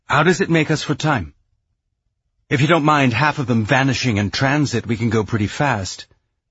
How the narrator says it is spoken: Naomi said, more sharply than she'd intended

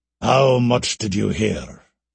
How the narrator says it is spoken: demanded Alastair gravely

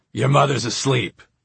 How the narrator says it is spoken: snarled

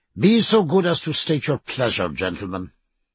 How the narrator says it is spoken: said Stephen sharply

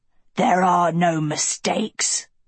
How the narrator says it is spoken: a wolf growled

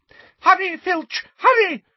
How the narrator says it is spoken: shrieked Umbridge

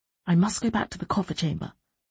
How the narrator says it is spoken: Trude said under her breath

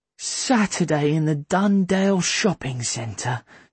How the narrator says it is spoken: Sethi groaned

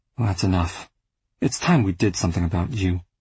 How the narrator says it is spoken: my father sighed and said

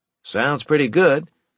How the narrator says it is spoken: I said in an upbeat tone

